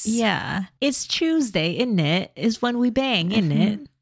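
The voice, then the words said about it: Put-on British accent. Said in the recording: “And which British accent is that?”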